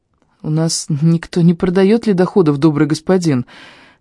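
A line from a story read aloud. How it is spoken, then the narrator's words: Uncertain, smiling. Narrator (Russian): неуверенно улыбнулся я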